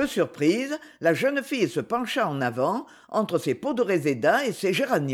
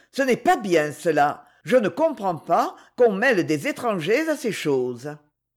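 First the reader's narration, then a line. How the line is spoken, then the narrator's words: Reproachful tone. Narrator (French): fit-elle d'un ton de reproche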